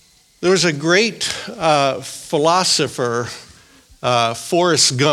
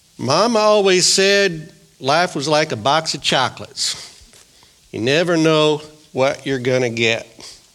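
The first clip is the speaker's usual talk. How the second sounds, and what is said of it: Forrest Gump character impression. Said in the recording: “That's my best Forrest Gump imitation.”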